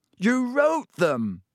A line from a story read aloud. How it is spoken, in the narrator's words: Harry shouted